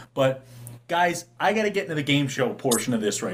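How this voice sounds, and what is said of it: Usual voice. Nothing is said of it.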